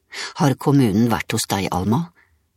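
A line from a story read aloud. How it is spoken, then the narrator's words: Upset voice. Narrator (Norwegian): sa Aksel med opprørt stemme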